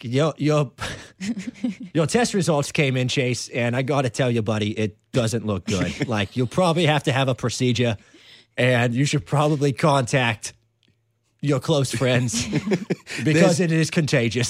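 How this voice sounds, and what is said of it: Put-on New Hampshire accent. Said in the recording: “That's a pretty good accent right there. ... I like messing around with the New Hampshire accent.”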